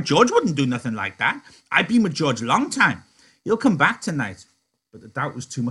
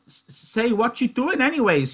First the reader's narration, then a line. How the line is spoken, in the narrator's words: he cried